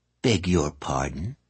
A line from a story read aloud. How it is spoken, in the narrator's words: Calla said stiffly